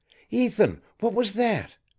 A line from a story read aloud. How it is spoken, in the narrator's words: she stammered